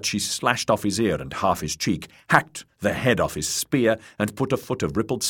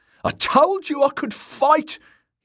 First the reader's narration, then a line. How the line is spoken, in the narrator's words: he shouted down